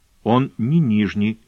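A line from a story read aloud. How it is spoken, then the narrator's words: Gentle. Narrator (Russian): мягко поправила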